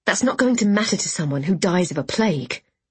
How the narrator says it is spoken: I snapped

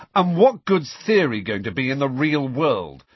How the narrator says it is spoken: said Harry loudly

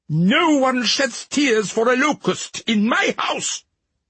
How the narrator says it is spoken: he shouted

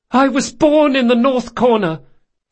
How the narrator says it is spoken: he yelled

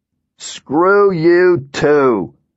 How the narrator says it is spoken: the colonel shouted

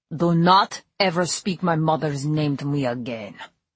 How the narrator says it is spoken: growled Dimitri

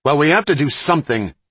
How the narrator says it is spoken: Werner snapped back, his anger amplified by his sprained back

